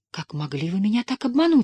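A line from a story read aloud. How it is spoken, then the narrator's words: Half joking, half frightened. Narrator (Russian): сказала Тесс, не то шутливо, не то испуганно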